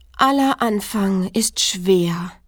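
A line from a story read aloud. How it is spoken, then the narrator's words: Sigh. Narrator (German): seufzte es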